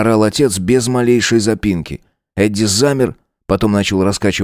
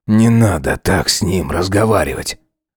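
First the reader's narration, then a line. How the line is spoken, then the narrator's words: Father muttering. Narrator (Russian): Отец пробормотал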